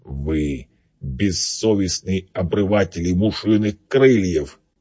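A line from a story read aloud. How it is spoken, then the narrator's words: Beetle hissing through teeth. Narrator (Russian): процедил жук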